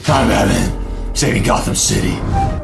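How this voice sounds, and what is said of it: Batman impression. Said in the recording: “your best Batman impression.”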